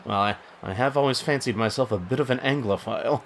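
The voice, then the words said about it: Unconvincing fake English accent. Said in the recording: “unless you're going for Tyrion Lannister, that accent won't work at all ... Do you want help learning how to be more English”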